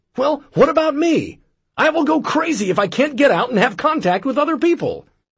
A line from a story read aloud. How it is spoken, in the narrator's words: She yells